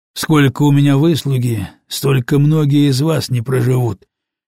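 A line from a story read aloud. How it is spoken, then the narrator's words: Habitual grumbling. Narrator (Russian): любил ворчать он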